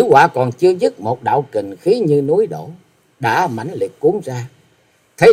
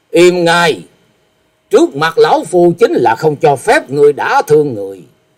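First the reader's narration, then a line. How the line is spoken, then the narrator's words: Angry snort. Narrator (Vietnamese): Như Ý Tẩu Đông Phương Húc tức giận hừ một tiếng nói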